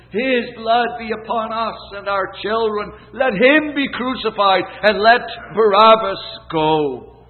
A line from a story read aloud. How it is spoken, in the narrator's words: what delight filled their hearts when the people shouted